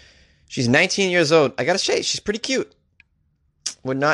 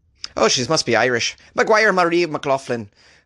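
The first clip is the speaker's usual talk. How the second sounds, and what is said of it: Bad put-on Irish accent. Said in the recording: “this Irish accent, eh? Not bad, eh? That's a terrible Irish accent”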